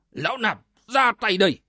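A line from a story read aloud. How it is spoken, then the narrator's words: Hot-tempered monk's shout. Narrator (Vietnamese): Hải Chí đại sư vốn tính nóng nảy như lửa, nghe nói liền quát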